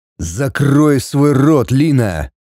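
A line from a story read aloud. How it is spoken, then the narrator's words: Rude involuntary hiss. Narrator (Russian): Непроизвольно грубо прошипел он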